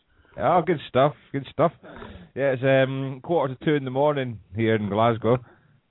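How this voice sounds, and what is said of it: Scottish accent. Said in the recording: “I get to hear the accent. Oh, there it is.”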